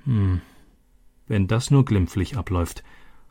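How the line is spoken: Murmured. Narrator (German): murmelte Elena

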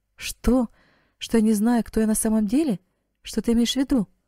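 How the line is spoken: Astonished girl exclaiming. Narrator (Russian): воскликнула девушка, еще более пораженная, чем раньше

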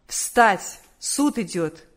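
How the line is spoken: Commanding official's voice. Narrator (Russian): судебный полицейский повелительным голосом сказал

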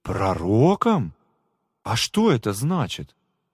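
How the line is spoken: Surprised exclamation. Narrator (Russian): Миша удивленно воскликнул

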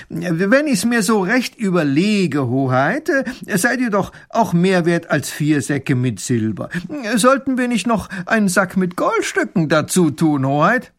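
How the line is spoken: Loud call. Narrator (German): Baron von Raffini ruft laut

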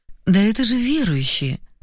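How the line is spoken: Relieved sigh. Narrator (Russian): Вздохнула свободнее

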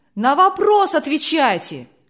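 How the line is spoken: Shouts from audience. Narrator (Russian): кричали из публики

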